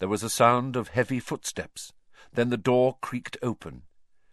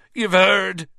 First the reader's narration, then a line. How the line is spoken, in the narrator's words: he bellowed